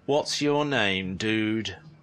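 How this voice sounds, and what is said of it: Monotone, uninterested voice. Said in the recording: “with the most monotone, uninterested voice imaginable”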